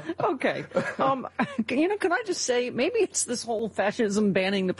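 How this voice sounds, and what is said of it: Usual voice. Nothing is said of it.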